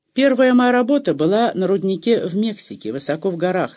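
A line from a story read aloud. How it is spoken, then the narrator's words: Plain. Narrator (Russian): сказал он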